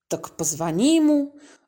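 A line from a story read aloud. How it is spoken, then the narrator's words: Indifferent grunt. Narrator (Russian): равнодушно буркнул он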